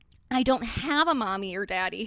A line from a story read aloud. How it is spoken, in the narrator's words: Harry replied sadly